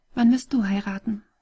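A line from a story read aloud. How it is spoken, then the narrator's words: Gentle question. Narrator (German): fragte sanft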